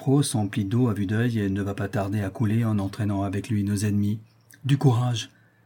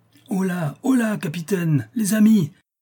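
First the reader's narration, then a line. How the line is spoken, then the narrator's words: Shouting. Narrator (French): nous crie en ce moment le brave Yvon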